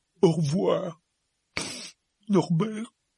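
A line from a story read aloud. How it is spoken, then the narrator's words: Sobbing. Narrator (French): sanglota Hagrid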